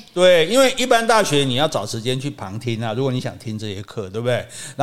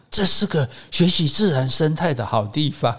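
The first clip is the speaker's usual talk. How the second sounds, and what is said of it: Hushed whisper. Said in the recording (Chinese): “要很小声”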